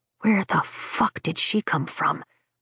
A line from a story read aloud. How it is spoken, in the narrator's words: Bodhi whispers